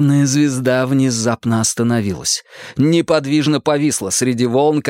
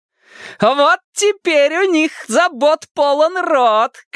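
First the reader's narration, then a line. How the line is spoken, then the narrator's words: Shouting over storm. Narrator (Russian): крикнула она, перекрикивая шторм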